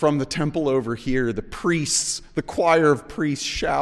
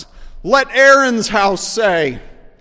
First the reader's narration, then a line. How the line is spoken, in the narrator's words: The director shouts